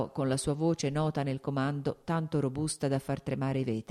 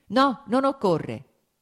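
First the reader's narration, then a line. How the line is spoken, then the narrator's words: Shouted again quickly. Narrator (Italian): gridò subito di nuovo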